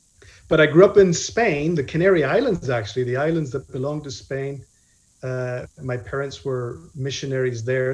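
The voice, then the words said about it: Northern Irish accent, sounds Scottish. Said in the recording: “explain the accent, because you were born in Belfast, Northern Ireland ... accent's from Northern Ireland, which sounds very Scottish,”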